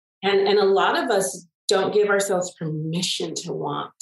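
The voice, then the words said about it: Emotional voice. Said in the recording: “I see you got a little emotional there... It went a little deep.”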